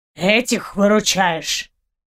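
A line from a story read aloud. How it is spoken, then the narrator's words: Disdainful snort. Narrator (Russian): Пренебрежительно фыркнул водник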